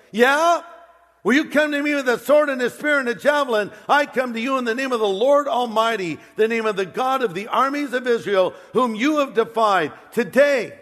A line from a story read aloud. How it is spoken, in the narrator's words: Goliath yells, David yells